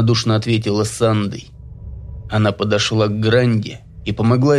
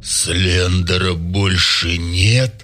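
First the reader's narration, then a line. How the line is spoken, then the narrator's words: Hoarse question. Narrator (Russian): хриплым голосом уточнил у нее Самуил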